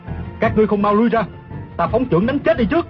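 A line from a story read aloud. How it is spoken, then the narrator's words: Loud shout. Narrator (Vietnamese): Tiêu Phong quát lớn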